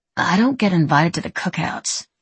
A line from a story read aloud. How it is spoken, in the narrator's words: she mumbled